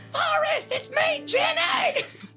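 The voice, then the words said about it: Yelling as if from afar. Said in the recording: “what happened to your voice? ... I'm yelling from afar!”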